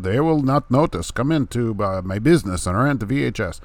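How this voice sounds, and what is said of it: Imitated Eastern European shop owner. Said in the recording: “they were from Eastern Europe somewhere ... That's an actual impersonation of the person that was there. Absolutely, 100%. You can't even hardly tell the difference.”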